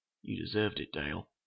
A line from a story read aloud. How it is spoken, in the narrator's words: he said quietly